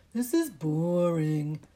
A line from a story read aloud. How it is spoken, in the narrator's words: Dudley moaned